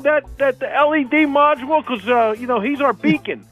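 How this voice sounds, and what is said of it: Deep Santa-like radio voice. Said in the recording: “You sound like Santa ... It's a radio voice that I'm trying to develop.”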